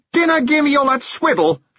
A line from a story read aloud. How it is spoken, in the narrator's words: shouted Rob ... in rage